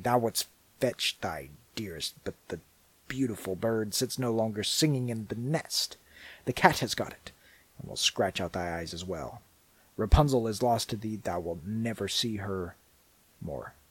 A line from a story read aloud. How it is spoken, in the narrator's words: she cried mockingly